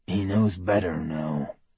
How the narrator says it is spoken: her mate continued in a low growl

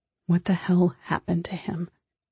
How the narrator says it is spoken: She whispers

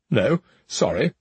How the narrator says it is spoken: the ghost muttered

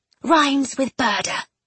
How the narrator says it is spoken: she said instead, in a low voice

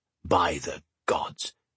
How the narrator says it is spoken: Goggin murmured

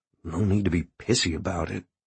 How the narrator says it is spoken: he muttered

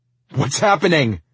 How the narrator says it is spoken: I shouted

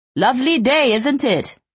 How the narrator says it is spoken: He called out

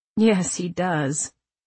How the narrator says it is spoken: I said, and laughed

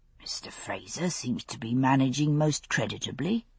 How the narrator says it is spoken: the older ensign murmured

